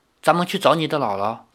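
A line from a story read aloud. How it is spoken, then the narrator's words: Soft, gentle. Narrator (Chinese): 李逍遥轻声地说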